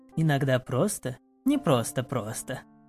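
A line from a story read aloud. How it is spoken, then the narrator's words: Soft laughing elf. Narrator (Russian): тихо засмеялась эльфийка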